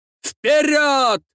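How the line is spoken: Shouted. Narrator (Russian): прокричал генерал Баске

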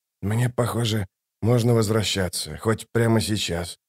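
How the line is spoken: Muttered. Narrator (Russian): буркнул Ток

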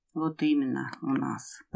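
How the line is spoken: Muttering under breath. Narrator (Russian): пробурчал себе под нос Лебедев

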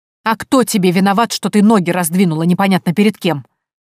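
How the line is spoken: Mother snapping back. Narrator (Russian): огрызнулась матушка

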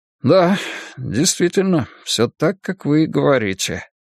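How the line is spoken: Sudden farewell mutter. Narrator (Russian): неожиданно пробормотал Мэнсики на прощание

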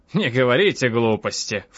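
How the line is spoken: Snorting. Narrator (Russian): фыркнул он

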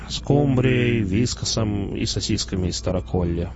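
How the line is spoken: Muttering. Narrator (Russian): пробурчал Шидло

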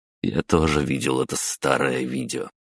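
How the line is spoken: Amused snort. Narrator (Russian): хмыкнул

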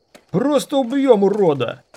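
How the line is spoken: Yelling guardsman. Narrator (Russian): заорал другой гвардеец

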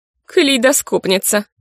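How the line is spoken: Scornful snort. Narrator (Russian): фыркнула крашеная блондинка

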